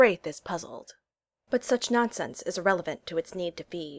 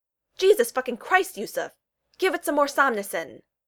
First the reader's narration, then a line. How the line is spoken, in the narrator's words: the male lying just out of reach yells